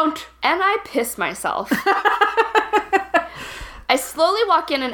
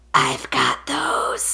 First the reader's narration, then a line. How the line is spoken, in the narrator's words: He says in a raspy voice